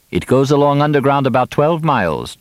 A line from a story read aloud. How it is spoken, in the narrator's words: Juma said